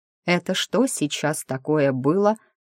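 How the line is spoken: Confused mumble. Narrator (Russian): пробормотала я растерянно

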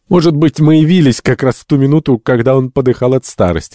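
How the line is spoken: Laughing. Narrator (Russian): засмеялся доктор

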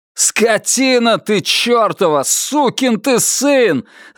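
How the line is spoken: Yelling at himself. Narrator (Russian): заорал на самого себя

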